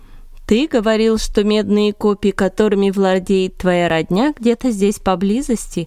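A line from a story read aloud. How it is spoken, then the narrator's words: Plain question. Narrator (Russian): спросил Савл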